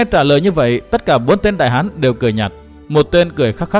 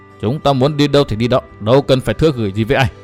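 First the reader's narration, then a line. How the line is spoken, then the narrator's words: Cold reply. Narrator (Vietnamese): Hận Thiên mới lạnh lùng đáp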